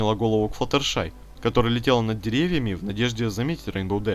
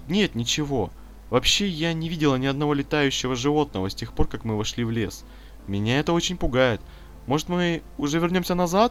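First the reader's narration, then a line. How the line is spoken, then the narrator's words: Timid. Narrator (Russian): робко произнесла Флаттершай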